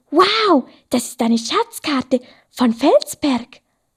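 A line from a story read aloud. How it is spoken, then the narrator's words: Excited. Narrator (German): Felsi war total aufgeregt und sagte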